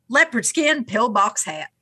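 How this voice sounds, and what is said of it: Half-hearted put-on Southern US accent. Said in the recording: “I have a southern accent ... I have a half-assed southern accent”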